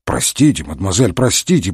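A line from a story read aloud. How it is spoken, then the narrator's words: Muttering. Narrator (Russian): бормотал Мегре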